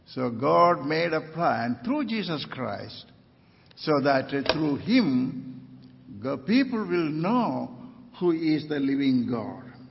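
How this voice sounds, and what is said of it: Non-native English accent. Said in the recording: “that's why I'm speaking with my accent. I have my own language, but when I speak to another language, I speak with my accent.”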